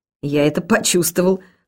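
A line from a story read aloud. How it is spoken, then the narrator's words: Shopkeeper's snort. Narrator (Russian): хмыкнул хозяин лавки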